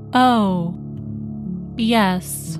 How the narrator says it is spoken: said Elizabeth dryly

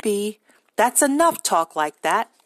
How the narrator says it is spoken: George told them all sharply

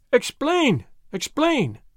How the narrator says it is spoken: they cried

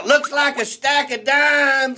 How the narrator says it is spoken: another guy hollers out

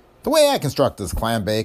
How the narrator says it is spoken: I said

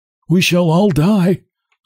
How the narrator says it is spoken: says the hunchback with a sigh

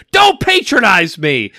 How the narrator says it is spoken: shout at them

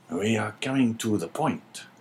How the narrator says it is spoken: whispered the governor

